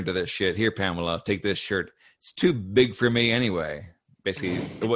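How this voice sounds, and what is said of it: Usual voice. Nothing is said of it.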